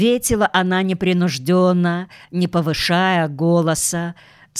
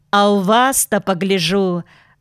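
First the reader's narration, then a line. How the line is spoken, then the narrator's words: Ringing girl's voice. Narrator (Russian): звонким голосом заговорила девушка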